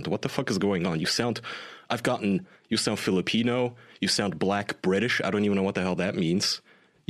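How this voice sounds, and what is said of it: Smooth Turkish-German accent, synthetic-sounding. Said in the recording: “You sound like a text-to-speech program ... It's just your smooth velvety ... Turkish and German ... you sound like a villain in a low-budget crime film”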